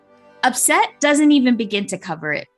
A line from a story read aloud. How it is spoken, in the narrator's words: Megan snapped